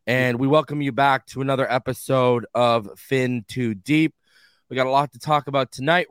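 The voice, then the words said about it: Sick, under-the-weather voice. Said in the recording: “I don't know if you guys can hear it in my voice, but your boy is under the weather right now.”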